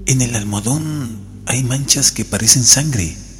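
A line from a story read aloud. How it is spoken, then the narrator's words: Soft call. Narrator (Spanish): llamó a Jordán en voz baja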